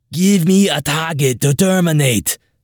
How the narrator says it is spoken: I said in my best Arnold voice

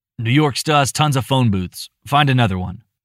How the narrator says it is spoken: grumbled, sniffing loudly as he felt his emotions pressing back against their confines

